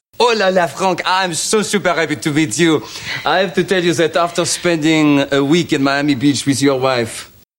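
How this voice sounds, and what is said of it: Put-on French accent, overpronounced words. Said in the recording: “Different accent. ... French accent. ... he, you know, overpronounce everything.”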